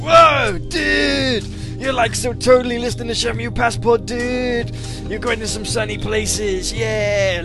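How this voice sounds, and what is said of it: Put-on surfer accent. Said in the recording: “Silversonic saying I should do a surfer accent.”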